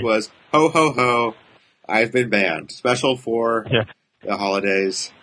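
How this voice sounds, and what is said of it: Santa Claus character voice. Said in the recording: “my Santa impression”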